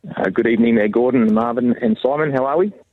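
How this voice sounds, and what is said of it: Australian accent. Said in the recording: “The accent ... that's an Australian accent, I think.”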